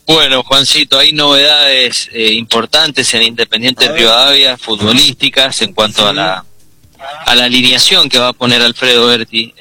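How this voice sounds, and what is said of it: Changed, deep announcer-like voice. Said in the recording (Spanish): “¿Has cambiado bien la voz? ... debe ser el estado gripal ... Voz de locutor, todo, impuesto la voz.”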